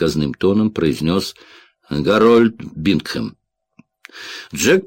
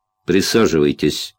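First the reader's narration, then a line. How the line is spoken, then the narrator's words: Icy tone. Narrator (Russian): ледяным тоном произнес Бингхэм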